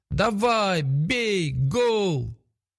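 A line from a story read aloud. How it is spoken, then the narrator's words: Joyful shouting with crowd. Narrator (Russian): Олег и Лилия веселились от души и кричали вместе со всеми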